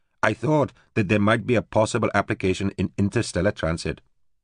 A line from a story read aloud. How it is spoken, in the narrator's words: said stiffly